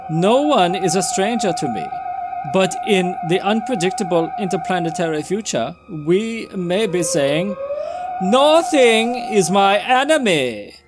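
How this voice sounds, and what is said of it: Put-on German accent. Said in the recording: “He's totally not German, but I'm giving him a German accent.”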